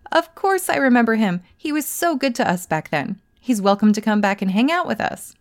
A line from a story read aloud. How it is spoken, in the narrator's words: they let out a hearty laugh and said